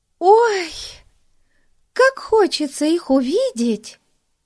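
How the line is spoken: Exclamation. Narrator (Russian): воскликнула Бетси

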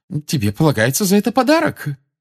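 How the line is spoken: Loving exclamation. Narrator (Russian): с любовью воскликнула миссис Уизли

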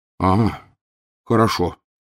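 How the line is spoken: Relieved sigh. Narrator (Russian): облегченно вздохнул Рон

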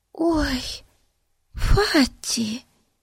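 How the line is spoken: Whispered. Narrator (Russian): прошептала Бетси

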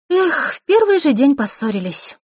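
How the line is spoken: Sighing. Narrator (Russian): вздохнула Диана

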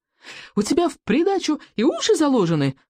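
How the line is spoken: Squeaked. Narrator (Russian): пищал Рыбий ног

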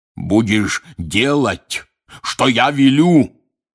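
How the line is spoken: Barked. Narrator (Russian): гаркнул он

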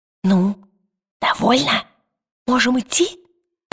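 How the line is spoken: Whisper. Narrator (Russian): прошептал он

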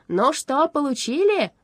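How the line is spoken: Excited shout. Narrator (Russian): возбужденно крикнул Страшила

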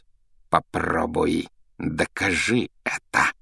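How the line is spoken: Hiss. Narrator (Russian): прошипел он

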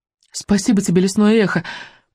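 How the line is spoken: Grateful female whisper. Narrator (Russian): прошептала Мелисенда

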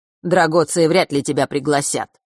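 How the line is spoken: Cold smirk. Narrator (Russian): холодно усмехнулся Марк

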